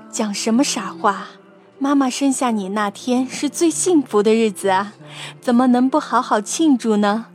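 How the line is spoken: Smiling. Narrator (Chinese): 笑着说

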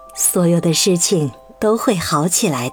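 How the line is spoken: Gentle. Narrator (Chinese): 妈妈温柔地说

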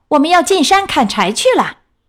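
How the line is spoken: Shouting. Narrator (Chinese): 她嚷道

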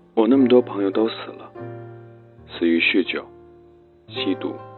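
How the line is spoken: Sighing. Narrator (Chinese): 他叹息道

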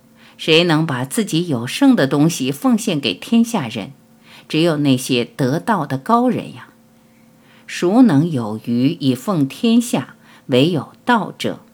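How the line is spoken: Sighing with feeling. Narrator (Chinese): 老子感叹说

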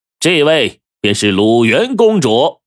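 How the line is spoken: Loud. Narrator (Chinese): 沈一基大声的说

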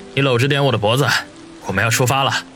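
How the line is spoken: Deep voice, secretly amused. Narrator (Chinese): 王宇心中暗笑，沉声地说道

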